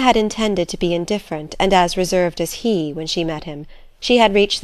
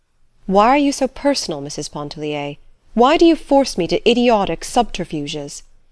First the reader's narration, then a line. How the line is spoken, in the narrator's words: he exclaimed with sudden warmth